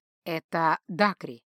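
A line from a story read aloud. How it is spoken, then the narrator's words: Mage's calm explanation. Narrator (Russian): спокойно пояснил маг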